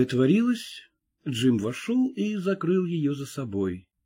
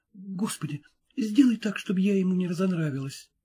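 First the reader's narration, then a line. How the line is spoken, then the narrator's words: Hurried whisper. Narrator (Russian): она торопливо зашептала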